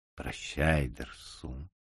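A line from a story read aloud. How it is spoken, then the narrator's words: Quiet. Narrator (Russian): сказал я тихо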